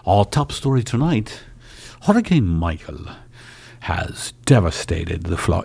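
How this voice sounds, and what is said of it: Polished British newsreader accent. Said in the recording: “it's done in a nicer accent.”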